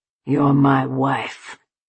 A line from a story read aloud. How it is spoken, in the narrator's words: he snarled